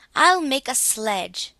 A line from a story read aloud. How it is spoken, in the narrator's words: exclaimed Claus